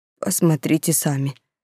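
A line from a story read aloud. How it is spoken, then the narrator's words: Suddenly hoarse voice. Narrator (Russian): резко севшим голосом произнес он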